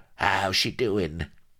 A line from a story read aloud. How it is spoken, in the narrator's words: the little pawnbroker croaking